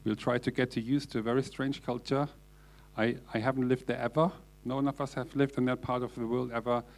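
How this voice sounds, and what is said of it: German accent. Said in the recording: “my German accent is still here”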